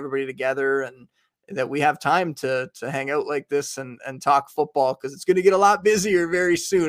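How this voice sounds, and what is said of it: Slight Canadian accent. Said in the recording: “slight, slight Canadian accent”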